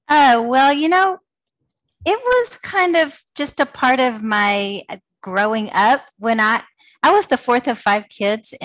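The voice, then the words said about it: Southern American accent. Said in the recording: “I love the Southern accent”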